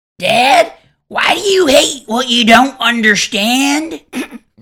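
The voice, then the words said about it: Cartoon character voice impression. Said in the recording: “your Bobby Hill impersonation ... That's actually pretty good. ... That's actually really good.”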